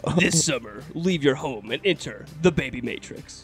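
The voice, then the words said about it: Movie trailer announcer voice. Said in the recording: “trailer voice man”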